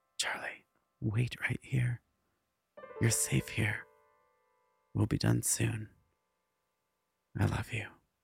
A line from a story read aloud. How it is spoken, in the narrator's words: gently whispered